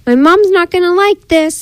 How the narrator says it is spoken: yelled to the pig

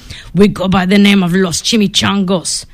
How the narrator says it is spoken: growled Don Diego, the biggest of the small ones

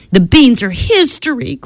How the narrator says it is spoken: cried Priscilla

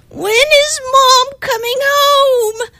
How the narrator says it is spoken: the boys squealed

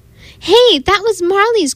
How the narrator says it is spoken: cried Cassie

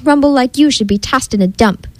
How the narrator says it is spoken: growled the old grump

